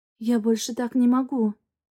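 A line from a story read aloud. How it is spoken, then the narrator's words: Whisper. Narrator (Russian): прошептала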